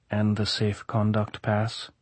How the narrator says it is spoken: Karkov said, softly

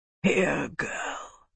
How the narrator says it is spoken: Graham whispered

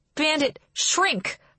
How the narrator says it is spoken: I yell at him

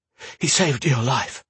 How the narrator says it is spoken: Roan gasped

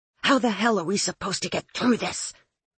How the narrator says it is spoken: she hissed

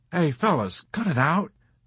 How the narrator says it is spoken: Nately begged with embarrassment

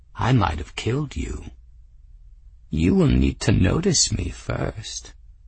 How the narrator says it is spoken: Meryl said back, her tone insufferably pleased with herself

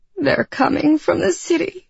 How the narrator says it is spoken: she sobbed

